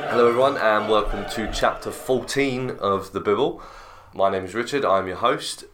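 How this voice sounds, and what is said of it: Low-energy, slightly off voice. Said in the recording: “my energy's a little bit low or if my voice is a little bit funny. I'm feeling a little bit under the weather today”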